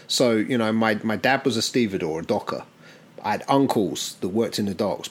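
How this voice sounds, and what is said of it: British English accent, Southampton. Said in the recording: “you might guess from the accent ... I didn't grow up in the US. I grew up in the UK, and I grew up in a city called Southampton”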